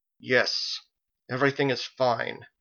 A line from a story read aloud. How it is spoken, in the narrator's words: She put a trembling hand over her face and said through gritted teeth